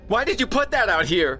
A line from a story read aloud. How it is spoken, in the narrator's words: She shrieked